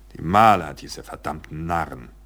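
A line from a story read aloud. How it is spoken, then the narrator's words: Grim growl. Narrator (German): knurrte Pond grimmig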